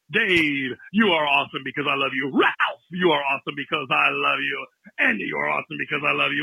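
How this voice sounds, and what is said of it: Exaggerated radio announcer voice. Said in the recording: “the radio voice”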